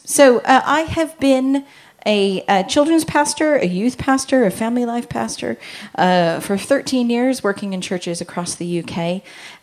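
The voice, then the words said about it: Mixed Southern California accent. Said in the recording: “You will hear the voice that is Southern California with being in the country for 15 years. So it's a bit of a mush.”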